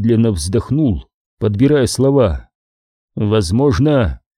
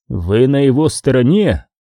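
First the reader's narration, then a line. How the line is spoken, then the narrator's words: Growling. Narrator (Russian): прорычала Кэне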